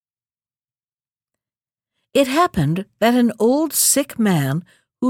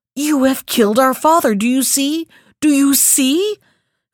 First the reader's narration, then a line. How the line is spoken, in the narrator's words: cried two young men